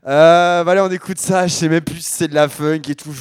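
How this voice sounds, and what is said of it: Hoarse, cracking sick voice. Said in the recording (French): “ma voix est un peu pétée encore ... plus je parle, plus ma voix se pète encore ... je suis malade comme un chien”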